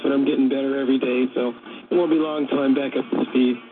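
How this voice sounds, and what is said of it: Hoarse voice. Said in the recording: “I know you're a little hoarse. You kind of were getting over a bug ... Just a little laryngitis”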